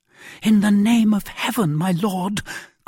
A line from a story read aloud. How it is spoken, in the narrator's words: cried Madame Bonacieux